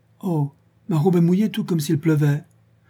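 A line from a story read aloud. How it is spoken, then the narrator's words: Very surprised exclamation. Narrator (French): elle s'écria, très surprise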